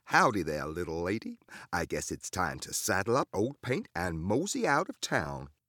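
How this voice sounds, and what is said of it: Exaggerated put-on Southern American accent. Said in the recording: “Can you do a southern accent? ... Let me hear the accent.”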